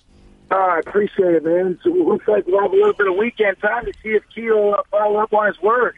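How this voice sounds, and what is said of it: Hoarse, worn-out voice. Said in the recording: “your voice ... his voice is going to be tore up”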